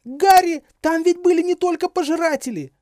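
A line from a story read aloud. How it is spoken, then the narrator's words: Desperate shout. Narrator (Russian): отчаянно закричала Гермиона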